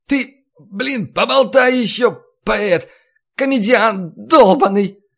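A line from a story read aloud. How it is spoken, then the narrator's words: Shouting in cracking falsetto. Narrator (Russian): Срываясь на сиплый фальцет, закричал Василий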